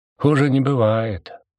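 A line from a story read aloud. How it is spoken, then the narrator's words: Gloomy reply. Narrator (Russian): мрачно отозвался Деготь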